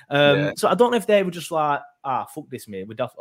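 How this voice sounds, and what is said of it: Put-on regional accent. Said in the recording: “I don't know why I'm trying to do an accent.”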